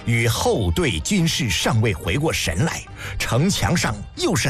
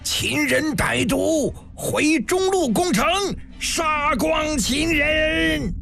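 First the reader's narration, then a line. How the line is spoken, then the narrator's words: Furious roar. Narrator (Chinese): 辛元衍跳脚狂吼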